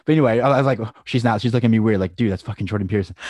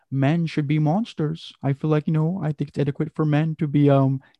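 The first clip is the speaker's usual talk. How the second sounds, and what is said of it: Jordan Peterson impression. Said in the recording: “that's how Jordan Peterson talks ... is that a Jordan Peterson impression?”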